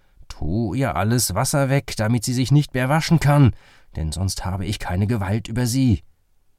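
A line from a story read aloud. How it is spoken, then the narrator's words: Angry. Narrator (German): Zornig sprach er zu Müller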